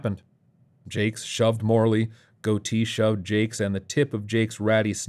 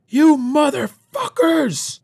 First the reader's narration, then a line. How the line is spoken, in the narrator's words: Morley screamed